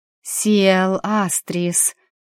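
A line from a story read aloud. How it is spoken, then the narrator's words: Chanted whisper, one breath. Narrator (Russian): прошептала нараспев, на одном дыхании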